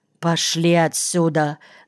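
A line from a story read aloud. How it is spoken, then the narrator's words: Muffled speech. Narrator (Russian): сказал он глухо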